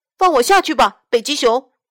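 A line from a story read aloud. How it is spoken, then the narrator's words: Shouting. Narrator (Chinese): 他大喊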